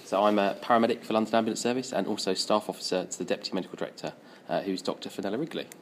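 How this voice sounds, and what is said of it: London English accent. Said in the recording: “the boys from London ... lots of accents that sound just like me”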